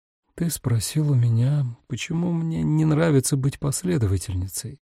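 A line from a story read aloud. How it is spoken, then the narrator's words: Quiet, uneasy. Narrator (Russian): Тихо произнесла она, потому что не могла вынести тишины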